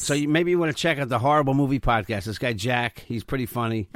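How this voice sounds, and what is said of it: New York Long Island accent. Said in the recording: “I have a New York accent, right? I have a Long Island accent.”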